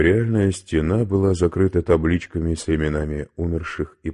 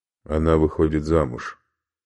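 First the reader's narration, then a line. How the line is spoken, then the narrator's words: Plain. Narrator (Russian): сказал Зонис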